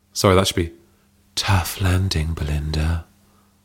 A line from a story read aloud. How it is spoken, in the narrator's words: purred Hazel